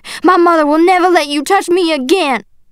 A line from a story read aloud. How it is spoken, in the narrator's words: I shouted